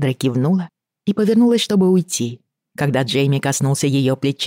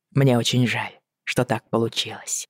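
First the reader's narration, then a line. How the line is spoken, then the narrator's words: Quiet. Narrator (Russian): тихо сказал он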